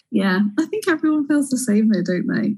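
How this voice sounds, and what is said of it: English accent. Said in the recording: “a little bit of a change with the accent ... she is English”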